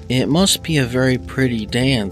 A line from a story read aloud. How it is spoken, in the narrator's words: said Alice timidly